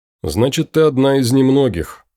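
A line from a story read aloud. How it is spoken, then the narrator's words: Snorting. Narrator (Russian): хмыкнул Том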